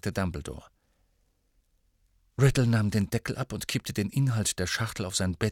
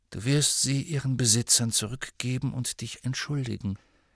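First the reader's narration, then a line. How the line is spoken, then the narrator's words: Calm. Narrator (German): sagte ruhig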